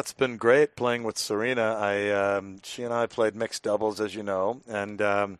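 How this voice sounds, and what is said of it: Monotone Andy Murray impression. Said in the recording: “my brief Andy Murray impression ... my monotone voice”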